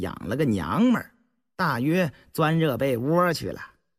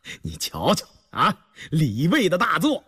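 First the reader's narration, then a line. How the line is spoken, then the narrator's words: Sudden burst of laughter. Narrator (Chinese): 突然扑的一声笑了 道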